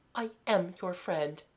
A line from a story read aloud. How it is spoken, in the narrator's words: Mademoiselle said softly